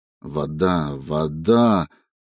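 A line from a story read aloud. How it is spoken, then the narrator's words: Muttering. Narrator (Russian): забормотал он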